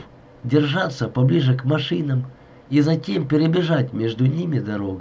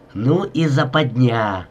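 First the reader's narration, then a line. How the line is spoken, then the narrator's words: Worried hiss. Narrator (Russian): озабоченно шипел Блещинский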